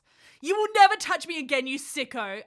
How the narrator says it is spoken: I wailed

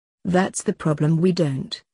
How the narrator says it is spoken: said Lance sadly

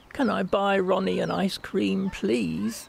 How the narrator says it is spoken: she pleaded

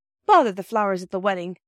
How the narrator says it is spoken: cried Peter

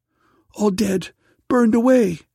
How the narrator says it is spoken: cried the daughter

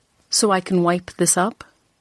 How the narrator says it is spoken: I had said coldly

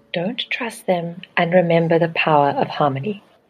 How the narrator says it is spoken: She whispered in my ear

